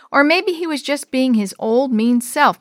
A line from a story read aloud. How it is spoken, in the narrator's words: Maria said loudly